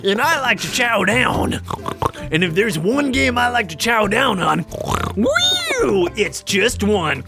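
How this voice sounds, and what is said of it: Oinking pig character voice. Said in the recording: “do it in a pig voice ... Pig voice. Oinking ... that's gonna be brutal on the old throat”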